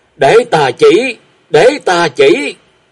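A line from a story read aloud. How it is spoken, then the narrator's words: Frantic eager cries. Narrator (Vietnamese): Hắn kêu lên rối rít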